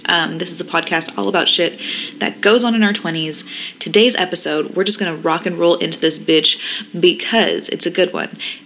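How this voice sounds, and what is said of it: Sleepy-sounding voice. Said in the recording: “please don't mind my sleepy girl voice right now ... I'm just sleepy”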